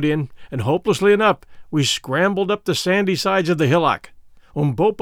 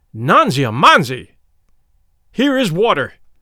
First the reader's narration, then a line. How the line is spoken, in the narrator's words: cried with a loud voice